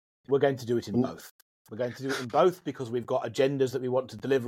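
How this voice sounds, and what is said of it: Plummy British accent. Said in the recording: “you don't sound very English. Sorry, very South African ... plummy? ... My British accent, absolutely.”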